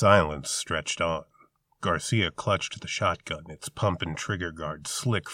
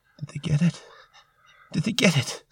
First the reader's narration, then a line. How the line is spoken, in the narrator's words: Waters whimpered